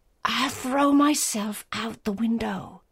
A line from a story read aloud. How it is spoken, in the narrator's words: At bay, she said in a terrible whisper